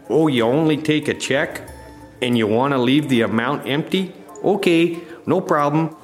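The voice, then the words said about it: Mock Upper Midwest rube accent. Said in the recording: “Great job on losing the accent. You know, I think that goddamn accent ... You're from Wisconsin? I'm from Minnesota. ... everybody around you sounds like a real rube”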